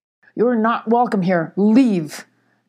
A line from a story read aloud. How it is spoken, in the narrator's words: growled the badger